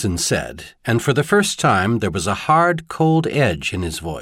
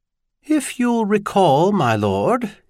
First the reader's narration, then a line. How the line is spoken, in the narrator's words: said, and his tone was oddly calm, almost mild